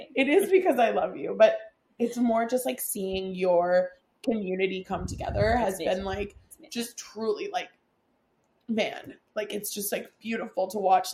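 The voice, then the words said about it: Emotional, tearful voice. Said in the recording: “the reason I'm getting emotional”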